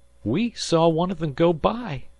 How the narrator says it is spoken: sobbed Harvey

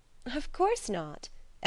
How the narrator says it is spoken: Edna laughed

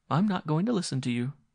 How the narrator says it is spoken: she said tightly

